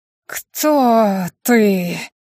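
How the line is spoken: Breathy ghostly exhale. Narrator (Russian): выдохнул призрак

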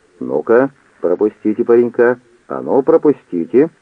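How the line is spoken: Policeman's loud repetition. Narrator (Russian): полицейский раздвинул ряды, громко повторяя

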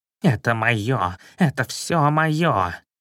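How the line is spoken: Strangled hiss. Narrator (Russian): шипя сдавленным голосом

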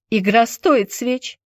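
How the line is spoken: Mocking. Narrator (Russian): Насмешливо отозвалась Тинета

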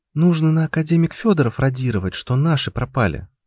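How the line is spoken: Sighing. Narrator (Russian): вздохнула Анюта

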